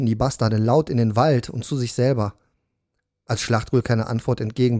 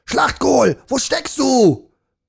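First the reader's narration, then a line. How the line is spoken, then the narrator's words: Soldier roaring. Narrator (German): brüllte einer der Soldaten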